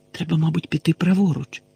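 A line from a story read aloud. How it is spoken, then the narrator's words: Whisper again. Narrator (Ukrainian): знову прошепотіла Герміона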